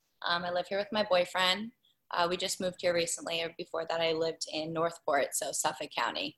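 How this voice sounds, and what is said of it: Long Island American accent. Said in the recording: “Can you tell by the accent? ... our listeners can tell by all three of our accents that we're all from Long Island ... the way we butcher the English language here on Long Island”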